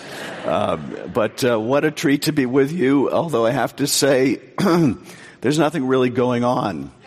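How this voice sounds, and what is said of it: Hoarse, low laryngitis voice. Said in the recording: “time for me to have laryngitis. So I'm going to be speaking tonight using my very best smooth jazz radio voice.”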